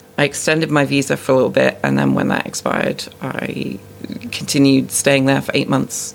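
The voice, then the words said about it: British accent, somewhat mixed. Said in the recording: “My accent has been completely messed up ... born and raised in the UK ... pretty bland British-sounding person”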